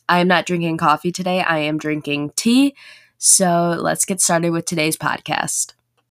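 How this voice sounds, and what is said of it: Sore, rough-sounding voice. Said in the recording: “My voice sounds a little bit different ... I had a really bad sore throat”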